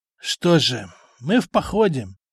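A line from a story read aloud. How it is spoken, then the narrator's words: Sighing older man. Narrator (Russian): вздохнул пожилой воин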